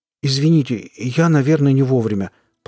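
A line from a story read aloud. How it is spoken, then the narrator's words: Timid babble. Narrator (Russian): пролепетал я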